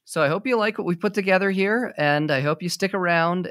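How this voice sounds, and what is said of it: Semi-monotone speaking voice. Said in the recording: “my semi-monotone”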